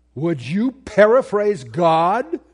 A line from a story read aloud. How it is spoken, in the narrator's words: Walter Martin bellow from a pulpit